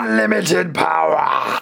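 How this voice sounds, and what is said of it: Palpatine impression drifting into Darth Vader. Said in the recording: “my Palpatine impression ... You turned into Darth Vader there at the end”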